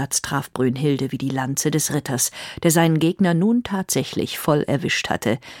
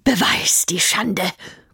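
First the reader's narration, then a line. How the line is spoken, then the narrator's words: Panting. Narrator (German): keuchte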